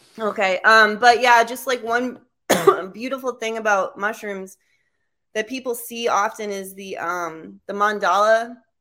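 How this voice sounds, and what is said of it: Strained, worn-out voice. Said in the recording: “My voice is finally tapping out.”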